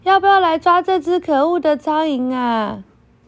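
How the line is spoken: Rooster crowing. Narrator (Chinese): 公鸡啼叫着说

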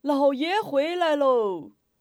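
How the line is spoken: Shouted from outside. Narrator (Chinese): 忽听门外呼喊

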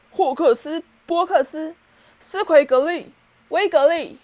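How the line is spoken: Fierce roar. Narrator (Chinese): 哈利用一种非常凶狠的嗓音吼道

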